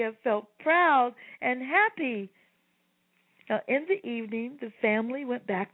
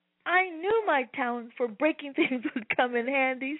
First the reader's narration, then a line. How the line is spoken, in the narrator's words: she said with a laugh